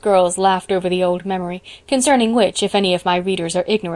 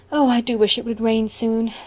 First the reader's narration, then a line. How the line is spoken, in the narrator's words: sighed Anne